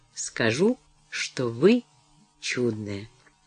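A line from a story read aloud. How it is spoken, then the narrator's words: Meaningful tone. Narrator (Russian): Деннис ответил многозначительным тоном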